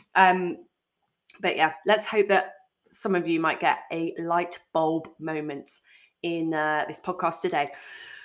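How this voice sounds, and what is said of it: Congested, muffled voice with a cold. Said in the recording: “I feel like I can't talk properly. I've still got a bit of a cold. My B's and P's aren't coming out properly... I sound a bit muffled.”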